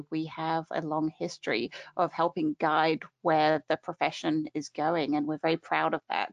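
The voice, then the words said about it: British accent. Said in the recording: “a wonderful British accent ... She sounds so fancy, doesn't she? She sounds fancy and smart like that.”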